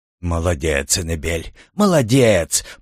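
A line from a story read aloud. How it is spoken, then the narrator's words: Grumbling. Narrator (Russian): проворчал Тюрен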